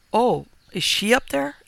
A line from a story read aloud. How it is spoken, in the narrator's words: exclaimed Aggie, somewhat fretfully